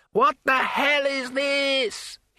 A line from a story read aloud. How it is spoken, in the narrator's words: he shouted